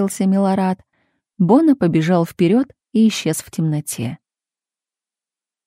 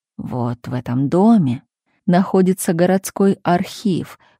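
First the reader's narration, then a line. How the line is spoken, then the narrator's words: Low voice. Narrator (Russian): вполголоса сообщил Милорад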